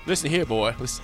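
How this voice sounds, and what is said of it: Cartoon rooster character voice. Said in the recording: “Foghorn Leghorn ... That was a sneaky good impression. ... That's pretty good. ... That was excellent.”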